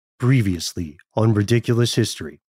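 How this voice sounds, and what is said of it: Dramatic voice-over announcer voice. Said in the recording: “I just wanted to do that voice because I love that kind of VO”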